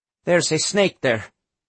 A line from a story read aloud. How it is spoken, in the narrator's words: in a calmer tone, he said